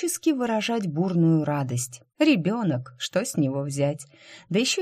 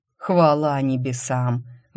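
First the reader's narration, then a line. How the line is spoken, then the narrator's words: Relieved exhalation. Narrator (Russian): выдохнул Наран, когда с земли поднялся не демон знает кто, а самый обычный степной волк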